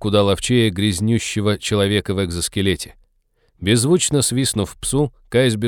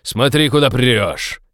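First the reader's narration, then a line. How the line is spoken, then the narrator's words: Barked. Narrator (Russian): рявкнул Фрианин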